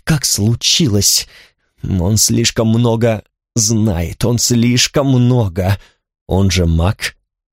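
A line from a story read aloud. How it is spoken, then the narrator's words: Through gritted teeth. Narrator (Russian): сказал я сквозь зубы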